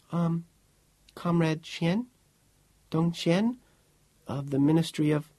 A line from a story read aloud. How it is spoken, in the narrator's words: The girl said in a timid little voice